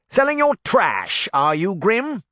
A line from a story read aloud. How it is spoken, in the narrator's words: the sheriff sneered